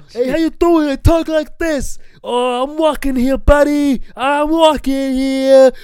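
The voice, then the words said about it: Put-on New York accent. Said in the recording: “In Europe, they're under the impression that everyone's from New York.”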